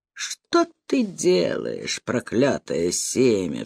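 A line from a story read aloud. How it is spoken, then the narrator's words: Woman crying out. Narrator (Russian): вскричала женщина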